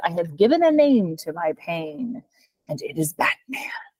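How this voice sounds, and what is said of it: Joker impersonation. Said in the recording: “very good impersonation”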